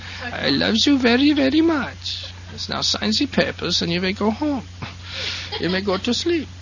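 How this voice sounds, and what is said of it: Put-on German accent. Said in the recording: “she laughs every time I do the German accent ... do the German accent in my ear”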